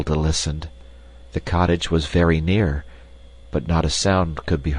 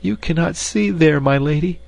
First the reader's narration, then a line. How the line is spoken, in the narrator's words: sobbed Gretel eagerly